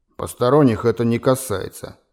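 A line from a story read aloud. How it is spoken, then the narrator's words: Gloomy, through clenched teeth. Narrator (Russian): мрачно процедил владелец гостиницы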